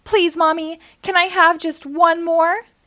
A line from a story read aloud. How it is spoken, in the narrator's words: I begged when I woke up from my nap